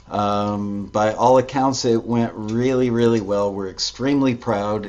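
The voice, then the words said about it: Slightly hoarse, croaky voice. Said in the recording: “I've got a little frog in my throat from saying thank you, thank you, thank you”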